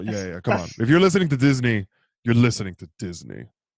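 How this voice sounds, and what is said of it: Deliberately very low-pitched voice. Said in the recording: “why does your voice sound like several octaves lower? ... vocal chocolate ... talk in a low voice”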